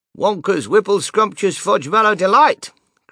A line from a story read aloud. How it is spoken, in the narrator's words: cried Grandpa George